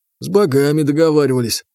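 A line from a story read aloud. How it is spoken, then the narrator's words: Grumbled. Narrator (Russian): буркнул Потапыч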